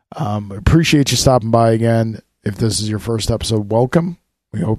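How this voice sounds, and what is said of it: Strained voice about to give out. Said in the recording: “My throat, my voice is about to give out on me ... he doesn't always sound like this ... I don't always sound like this. I sound much better”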